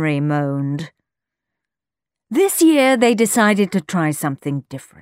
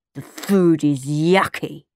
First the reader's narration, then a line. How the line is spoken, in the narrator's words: Henry grumbled